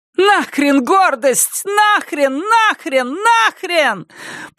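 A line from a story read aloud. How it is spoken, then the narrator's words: Shouting woman. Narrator (Russian): прокричала она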